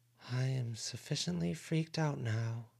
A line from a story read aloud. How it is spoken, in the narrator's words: Avery whispered